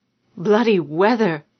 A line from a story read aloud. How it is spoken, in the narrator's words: she gasped